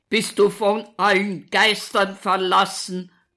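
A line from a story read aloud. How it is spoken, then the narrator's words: Keeps bellowing. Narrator (German): brüllt weiter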